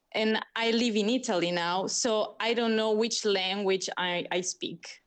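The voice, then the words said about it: American Californian-sounding accent. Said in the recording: “you and Jess have a similar accent ... we have this Californian accent, I think American, I don't know”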